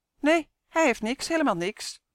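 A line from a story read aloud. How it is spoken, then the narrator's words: Squeaky voice. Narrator (Dutch): piepte een ander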